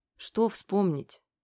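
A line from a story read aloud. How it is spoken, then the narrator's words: Muttered. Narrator (Russian): пробормотала Аня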